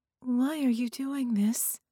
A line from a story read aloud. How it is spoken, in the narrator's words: she asked, her voice small and trembling